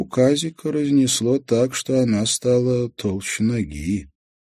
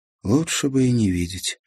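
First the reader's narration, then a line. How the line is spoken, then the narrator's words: Sighing. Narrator (Russian): вздохнула Марьяна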